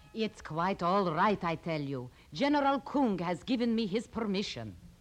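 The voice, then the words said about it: Poor put-on Russian accent. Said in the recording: “your Russian accent? ... it wasn't a good accent anyway”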